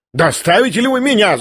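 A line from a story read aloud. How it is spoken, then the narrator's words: Shouted. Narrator (Russian): закричала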